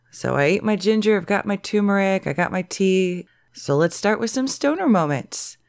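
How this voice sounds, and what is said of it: Lower, inflamed sick voice. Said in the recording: “I'm getting sick... I've got my sexy sick voice on today... It's a little lower, a little more inflamed”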